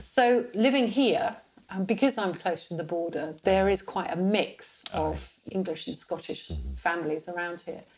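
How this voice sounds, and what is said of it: Plummy English accent. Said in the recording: “posh southerner ... that plummy accent ... your English accent”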